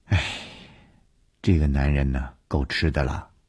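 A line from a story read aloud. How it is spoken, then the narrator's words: Sighing. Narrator (Chinese): 吕小亚叹了一口气说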